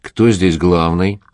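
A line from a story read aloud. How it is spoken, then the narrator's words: Calm male question. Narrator (Russian): спокойно спросил мужчина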